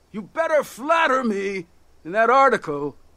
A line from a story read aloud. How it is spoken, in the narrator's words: he shouted